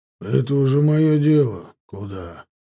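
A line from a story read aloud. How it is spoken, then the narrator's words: Displeased mutter. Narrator (Russian): недовольно буркнул Архипыч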